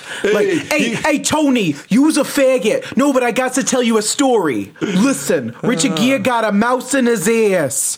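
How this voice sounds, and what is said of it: Put-on New Jersey accent. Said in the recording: “I just love hearing that in like a Jersey accent.”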